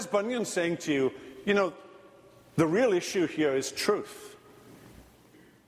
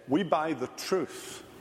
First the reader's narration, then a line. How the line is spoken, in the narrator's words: they, looking gravely upon him, said